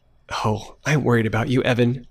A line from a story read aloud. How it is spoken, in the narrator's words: Sophie whimpered softly into the phone